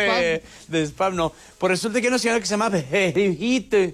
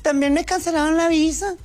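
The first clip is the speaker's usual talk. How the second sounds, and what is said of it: Put-on northern Mexican Chihuahua accent. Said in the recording (Spanish): “Con el acento de Chihuahua.”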